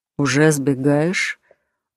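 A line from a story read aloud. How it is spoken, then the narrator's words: Lazy grumble. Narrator (Russian): Он лениво проворчал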